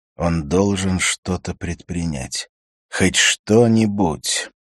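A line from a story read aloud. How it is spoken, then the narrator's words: Groaning. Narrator (Russian): Харри застонал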